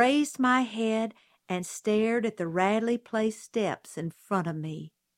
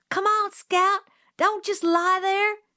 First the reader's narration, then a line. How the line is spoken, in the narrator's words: Jim was screaming